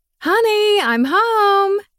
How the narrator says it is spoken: She yelled

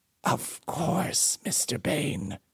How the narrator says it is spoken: he said through clenched teeth

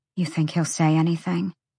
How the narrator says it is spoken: Bryce whispered into the gloom

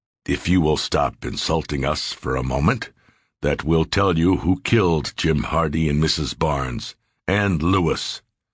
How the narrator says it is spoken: Sears calmly said

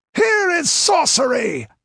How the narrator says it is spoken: screamed Tsotha, clawing madly at his beard

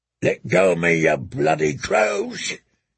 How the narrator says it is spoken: roared

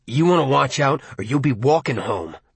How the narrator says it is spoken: Buddy snarled, with a rupture

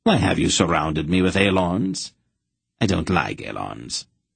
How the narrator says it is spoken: the Emperor demanded sharply

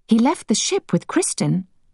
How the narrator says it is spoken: said Emma anxiously

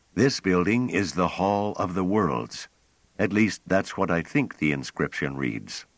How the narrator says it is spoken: Pellerat, his voice moderating at once, said

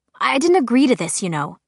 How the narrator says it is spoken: she snapped

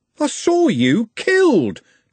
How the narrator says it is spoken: Trev shouted

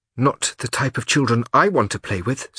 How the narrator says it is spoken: said Gretel in a determined voice

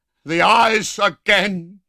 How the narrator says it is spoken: he cried in an unearthly screech

